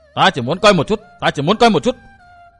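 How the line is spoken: Loud bellow. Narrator (Vietnamese): Quái phụ quát lớn

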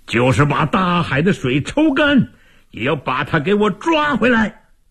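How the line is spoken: Hoarse, straining shout. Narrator (Chinese): 魏王声嘶力竭地喊道

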